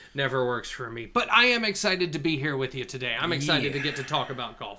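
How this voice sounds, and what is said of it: Congested, allergy-affected voice. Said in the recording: “Pollen is great and wonderful. If you can hear it in my voice, I am so sorry”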